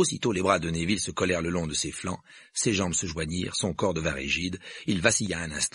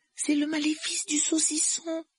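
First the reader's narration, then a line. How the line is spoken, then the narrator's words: Dismayed voice. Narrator (French): dit Hermione d'une voix navrée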